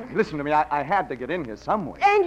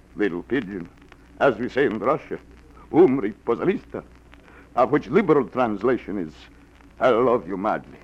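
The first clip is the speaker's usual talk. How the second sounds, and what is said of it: Fake Russian accent. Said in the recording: “the accent, the beard, she comes and goes. It's old Russian custom.”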